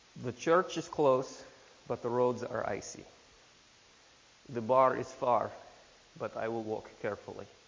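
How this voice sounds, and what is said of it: Put-on Russian accent. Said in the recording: “this is a Russian proverb ... Should I do it in the accent too?”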